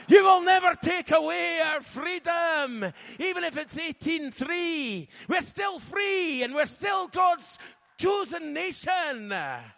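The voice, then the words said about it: Scottish accent. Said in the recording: “In my accent, it sounds better... it feels good to be Scottish today”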